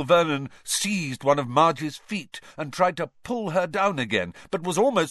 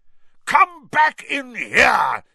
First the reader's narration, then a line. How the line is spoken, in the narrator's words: he bellowed